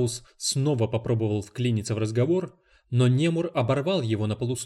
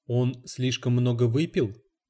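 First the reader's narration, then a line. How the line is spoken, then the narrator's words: Plain. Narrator (Russian): сказала его жена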